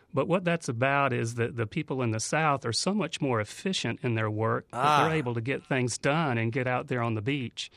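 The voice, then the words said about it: Northern US regional accent. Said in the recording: “because of my accent, you can tell I'm definitely from the north”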